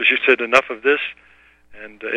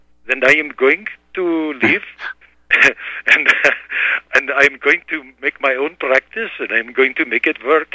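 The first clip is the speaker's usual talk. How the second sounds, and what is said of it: Imitated Indian-accented English. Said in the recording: “in her very beautiful English with the Indian accent”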